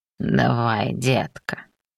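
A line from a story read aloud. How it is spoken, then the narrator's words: Hoarse command. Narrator (Russian): хрипло приказал демон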